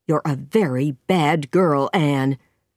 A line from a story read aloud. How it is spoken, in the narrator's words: Marilla said angrily